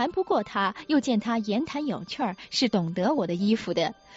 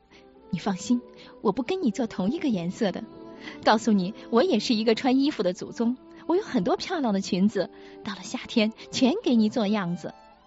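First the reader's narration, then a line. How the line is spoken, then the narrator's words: Low voice. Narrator (Chinese): 低声道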